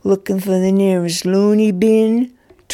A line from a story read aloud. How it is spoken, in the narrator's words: taunted the other teen